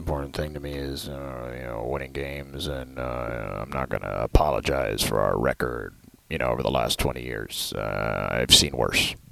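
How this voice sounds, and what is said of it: Bill Belichick impression. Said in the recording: “my Bill Belichick impersonation ... That was really good ... I thought it was inspired”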